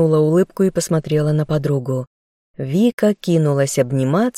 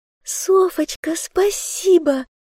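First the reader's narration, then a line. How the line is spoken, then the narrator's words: Squealing with joy. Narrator (Russian): пищала от радости новобрачная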